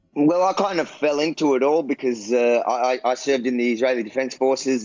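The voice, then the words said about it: Australian accent. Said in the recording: “I love that Australian accent”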